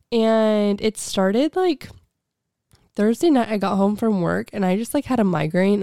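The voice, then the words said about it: Sick, congested-sounding voice. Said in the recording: “I'm sick as a dog. I don't know if you can hear it in my voice”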